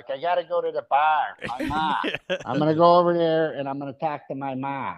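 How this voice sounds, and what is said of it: Exaggerated regional accent with hard R. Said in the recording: “you guys have the hard R”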